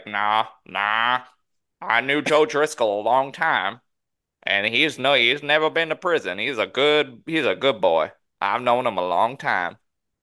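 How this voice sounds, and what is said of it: Put-on Southern accent. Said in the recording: “Nailed that accent. ... Apparently, the guy from New York is the best at the southern accent.”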